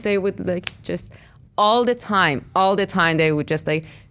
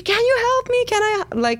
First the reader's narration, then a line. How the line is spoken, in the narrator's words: I would just like scream